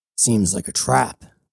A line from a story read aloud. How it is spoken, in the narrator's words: Cybele growled